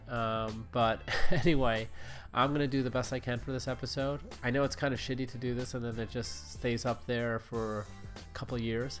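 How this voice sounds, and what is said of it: Congested, sinus-affected voice. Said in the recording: “Sorry for my voice again. This sinus thing is really fucking annoying.”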